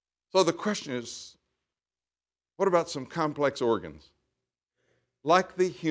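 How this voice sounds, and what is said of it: Usual voice. Nothing is said of it.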